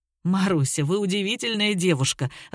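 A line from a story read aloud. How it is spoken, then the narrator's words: Laughing. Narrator (Russian): рассмеялся Вячеслав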